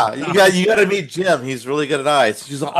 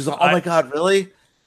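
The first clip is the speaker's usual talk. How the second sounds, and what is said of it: Imitates another person's voice. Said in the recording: “That's a good impression of her.”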